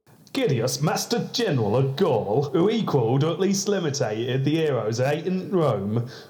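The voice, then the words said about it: Humorous put-on regional accent. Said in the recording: “a Gibbon quote in a humorous regional accent”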